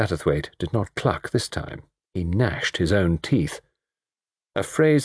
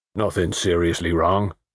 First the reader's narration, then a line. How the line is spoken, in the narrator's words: said the mechanic, in a low, hoarse country voice